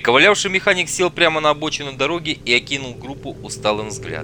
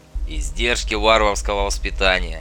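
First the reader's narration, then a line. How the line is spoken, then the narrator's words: Calm retort. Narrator (Russian): спокойно парировал Макс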